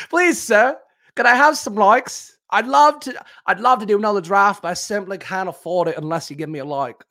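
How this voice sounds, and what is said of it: Bad put-on British cockney accent. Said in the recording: “a little cockney boy ... a little Oliver ... It was the bad British accent, I guess”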